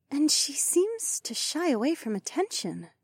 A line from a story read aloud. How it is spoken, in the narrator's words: Ravi murmured